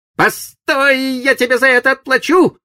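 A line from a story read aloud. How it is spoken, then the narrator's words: Shouted farewell. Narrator (Russian): крикнув на прощание Сиду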